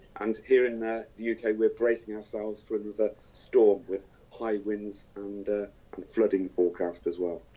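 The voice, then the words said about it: Hoarse voice from a bad cold. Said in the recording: “what sounds like, you will hear, a bad cold ... I've got a bit of a sore throat”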